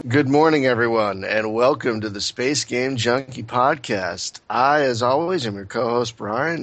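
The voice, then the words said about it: American accent. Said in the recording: “my horrible American accent”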